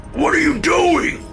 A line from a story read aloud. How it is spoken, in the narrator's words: Dad screamed